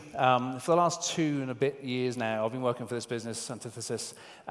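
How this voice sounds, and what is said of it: British accent. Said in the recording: “This is my house in the UK. You can tell from my accent.”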